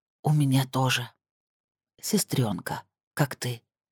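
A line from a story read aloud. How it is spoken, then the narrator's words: Passionate whisper. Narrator (Russian): шептала женщина горячими губами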